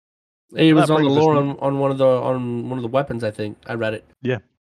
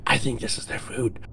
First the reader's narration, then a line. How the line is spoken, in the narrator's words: a young woman whispered